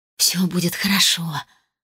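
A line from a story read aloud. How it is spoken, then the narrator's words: Strained whisper. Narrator (Russian): с вымученной улыбкой прошептала она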